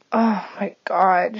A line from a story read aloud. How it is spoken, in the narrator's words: she managed to let out between breaths